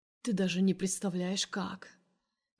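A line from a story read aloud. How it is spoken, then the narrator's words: Hoarse voice, husband. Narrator (Russian): Проговаривает муж охрипшим голосом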